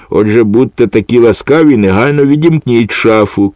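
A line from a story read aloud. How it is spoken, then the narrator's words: Shouted. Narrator (Ukrainian): крикнув Філе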